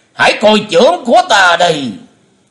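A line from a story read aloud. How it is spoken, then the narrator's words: Loud battle shout. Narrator (Vietnamese): Bệnh Túy thần quân đã hất cánh tay áo rộng rồi quát lớn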